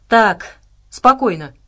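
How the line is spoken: Commanding tone. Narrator (Russian): приказным тоном произнес Абрамс

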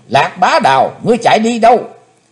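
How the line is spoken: Sudden loud yell. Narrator (Vietnamese): Chí Tôn bỗng thét lớn

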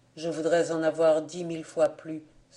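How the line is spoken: Sighed. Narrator (French): soupira-t-il

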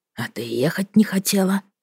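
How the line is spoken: Dropping to whisper. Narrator (Russian): перешёл он на шёпот

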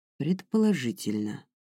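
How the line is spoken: Soft reply. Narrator (Russian): мягко ответил лорд Баскин

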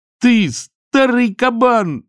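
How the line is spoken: Shouting. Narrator (Russian): закричал Чонкин

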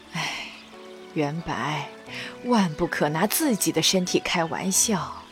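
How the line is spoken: Tired sigh. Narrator (Chinese): 宛太妃已经有些疲惫，她缓了一会儿，叹了口气道

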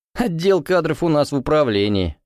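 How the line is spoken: Laughing repairman. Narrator (Russian): засмеялся ремонтник

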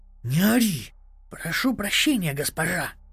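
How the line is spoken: Whisper. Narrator (Russian): прошептал

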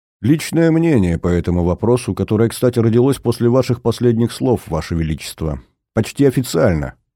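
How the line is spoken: Plain. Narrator (Russian): говорит старый друг

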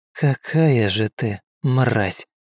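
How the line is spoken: Quiet after deep breath. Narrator (Russian): Девушка сделала глубокий вдох и тихо произнесла

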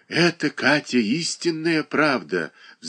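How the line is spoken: Sighing. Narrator (Russian): вздохнула Марья Дмитриевна

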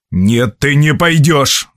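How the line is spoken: Growled. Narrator (Russian): зарычал Боб

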